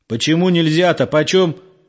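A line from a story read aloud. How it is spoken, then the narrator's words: Yelling into phone. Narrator (Russian): орал он в трубку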